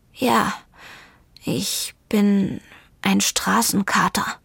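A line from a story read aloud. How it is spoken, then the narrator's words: Murmured. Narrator (German): murmelte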